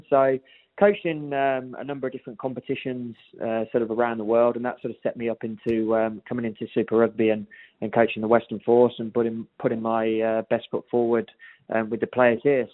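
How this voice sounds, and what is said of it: English accent. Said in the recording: “Nice accent there, no doubt stemming from another part of the world... you picked up on that accent. From England originally”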